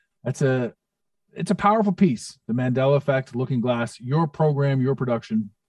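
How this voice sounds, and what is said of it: Smooth, mesmerizing radio voice. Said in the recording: “You got that, that radio voice ... you're mesmerizing and hypnotizing.”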